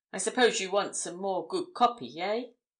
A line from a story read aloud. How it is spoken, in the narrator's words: added, with a sly laugh